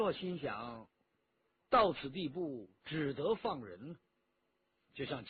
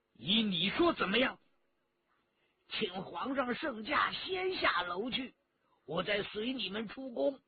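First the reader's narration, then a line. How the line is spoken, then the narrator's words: Furious. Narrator (Chinese): 陈家洛大怒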